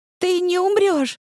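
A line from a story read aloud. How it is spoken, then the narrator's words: Sobbing. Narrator (Russian): рыдала она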